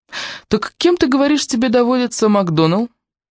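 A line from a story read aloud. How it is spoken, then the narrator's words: Sly offhand question. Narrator (Russian): столь хитро, между прочим, он задал свой вопрос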